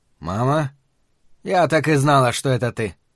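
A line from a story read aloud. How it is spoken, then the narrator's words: Surprisingly impassive tone. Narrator (Russian): произнесла она на удивление бесстрастным тоном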